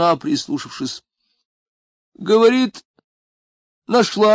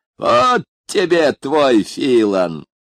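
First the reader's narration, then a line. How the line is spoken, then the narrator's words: Mocking exclamation. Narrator (Russian): насмешливо воскликнул он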